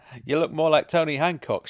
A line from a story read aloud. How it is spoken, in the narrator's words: laughed